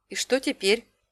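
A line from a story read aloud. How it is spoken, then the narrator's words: Plain. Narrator (Russian): спросила я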